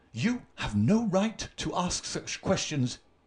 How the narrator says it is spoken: he cried

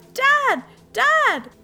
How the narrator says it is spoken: She shouted

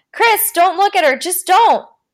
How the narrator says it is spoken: She screamed across the door

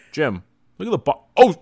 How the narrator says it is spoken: they snapped

